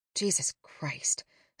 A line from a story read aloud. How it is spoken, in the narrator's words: whispered